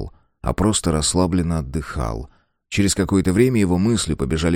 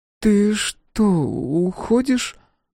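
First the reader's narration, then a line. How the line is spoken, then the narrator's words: Sleepy question. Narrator (Russian): сонно спросила она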